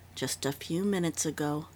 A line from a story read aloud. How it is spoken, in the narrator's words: Dundee answered softly